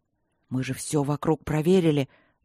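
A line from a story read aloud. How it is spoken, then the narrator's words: Trembling voice. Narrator (Russian): дрогнувшим голосом проговорил Макроуд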